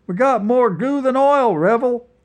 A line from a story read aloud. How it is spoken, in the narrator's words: shouted Hoss